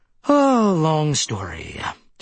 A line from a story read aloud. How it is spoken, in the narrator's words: she said with a familiar sigh